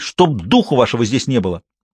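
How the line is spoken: Yelling at children. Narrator (Russian): заорала на детей

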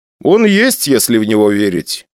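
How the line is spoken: Calm reply. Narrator (Russian): спокойно ответил я

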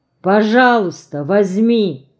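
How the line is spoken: Low, warm, thick coaxing voice. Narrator (Russian): уговаривает Варя своим низким голосом, добрым и густым, как сливовое варенье ее бабушки, Варвары Дмитриевны

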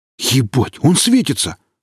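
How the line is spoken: Exclaiming. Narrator (Russian): воскликнул рядом Валдис

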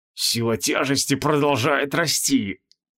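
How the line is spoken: Wheezed. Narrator (Russian): прохрипел

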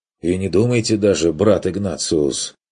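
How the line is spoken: Stern objection. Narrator (Russian): возразил отец Юрген строго

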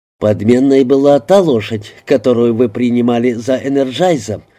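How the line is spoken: Plain. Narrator (Russian): сказал я

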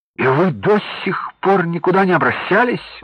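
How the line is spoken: Exclamation. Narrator (Russian): воскликнул Николай

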